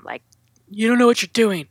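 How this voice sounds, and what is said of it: Imitates another person's voice. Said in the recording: “That's my impression of my son.”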